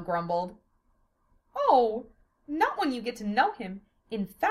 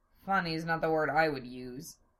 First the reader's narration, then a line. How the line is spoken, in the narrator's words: Zell grumbled more